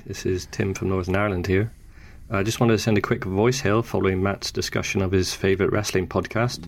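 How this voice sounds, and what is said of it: Soft Northern Irish accent. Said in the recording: “our regional accent ... So my accent is quite soft, not least because I've lived in England for a little while.”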